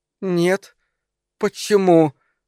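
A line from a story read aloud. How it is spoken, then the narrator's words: Forced out, strained. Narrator (Russian): выдавила она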